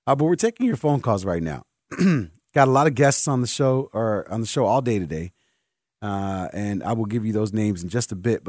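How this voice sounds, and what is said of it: Strained, fading voice. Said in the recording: “I think my voice is going. It sounds weird now.”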